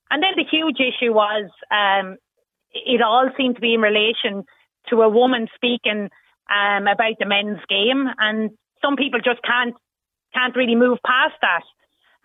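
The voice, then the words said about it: Irish Wexford accent. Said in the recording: “my accent, which I'm not going to be changing anytime soon ... I'm from Wexford”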